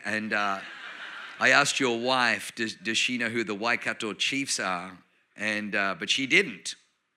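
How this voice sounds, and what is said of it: Australian accent. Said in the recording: “You probably notice I have a Australian accent.”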